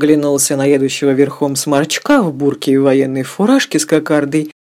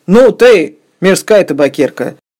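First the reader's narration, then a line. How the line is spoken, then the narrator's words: Shouting. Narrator (Russian): крикнул на Фиону Сергей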